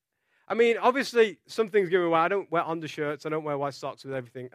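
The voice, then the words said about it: Non-native foreign accent. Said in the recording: “my accent gives me away, because they would say, you know, obviously you're not native from this country”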